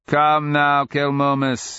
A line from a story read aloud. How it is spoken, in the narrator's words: his brother cackled